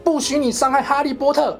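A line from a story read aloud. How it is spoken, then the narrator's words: Loud shout. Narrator (Chinese): 多比大喊一声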